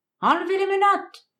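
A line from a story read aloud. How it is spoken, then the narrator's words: Crowd shouting. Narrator (French): cria la foule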